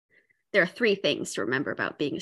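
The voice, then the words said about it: Imitation of Captain Janeway's voice. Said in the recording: “Janeway impersonation ... in your best Janeway voice”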